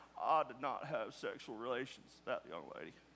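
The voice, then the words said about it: Bill Clinton impression. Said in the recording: “I've never even done a Bill Clinton impersonation.”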